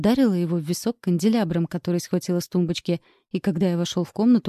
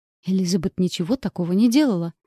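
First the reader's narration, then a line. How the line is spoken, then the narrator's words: Heated exclamation. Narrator (Russian): горячо воскликнул граф Дарье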